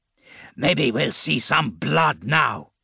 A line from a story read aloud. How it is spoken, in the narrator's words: Ake growled